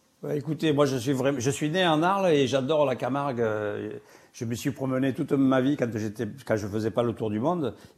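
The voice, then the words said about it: Regional French accent. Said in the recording (French): “on rajoute votre accent en plus”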